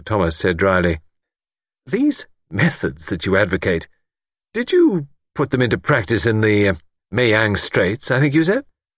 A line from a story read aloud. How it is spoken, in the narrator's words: Luke laughed